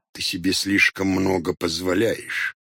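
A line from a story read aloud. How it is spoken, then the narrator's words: Displeased grumble. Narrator (Russian): Недовольно пробурчал Хоттабыч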